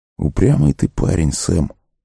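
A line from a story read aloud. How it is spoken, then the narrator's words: Sigh. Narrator (Russian): вздохнул Колоброд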